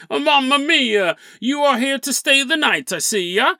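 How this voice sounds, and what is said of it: Put-on Italian-French accent. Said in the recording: “Why is an Italian French accent?”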